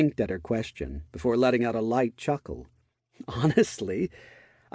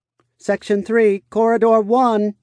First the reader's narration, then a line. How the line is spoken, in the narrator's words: called out